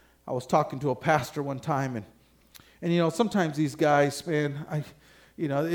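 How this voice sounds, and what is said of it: Usual voice. Nothing is said of it.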